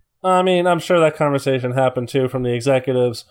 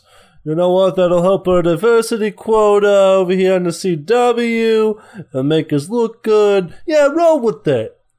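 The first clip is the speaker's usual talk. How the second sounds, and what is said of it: Impression of a TV executive. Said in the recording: “my impression of a CW executive”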